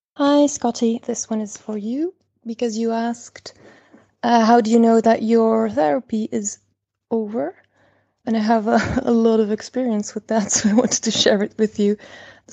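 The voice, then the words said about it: Belgian-accented English. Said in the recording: “Sorry for the accent, by the way. I'm calling from Belgium.”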